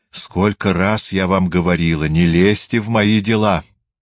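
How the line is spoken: Angry woman shouting. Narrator (Russian): злобно закричала женщина

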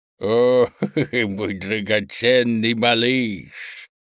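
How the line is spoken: Creaky-voiced cooing. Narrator (Russian): проворковала своим скрипучим голосом

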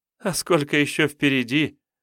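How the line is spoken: Sudden laughing maiden. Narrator (Russian): Неожиданно рассмеялась дева

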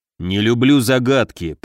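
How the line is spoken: Grumbling. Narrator (Russian): проворчал Муром

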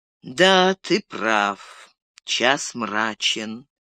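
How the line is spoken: Slow. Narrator (Russian): медленно произнес Денетор

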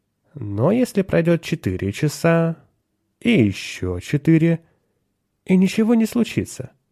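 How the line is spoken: Ingratiating question. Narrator (Russian): вкрадчиво спросил Теремон

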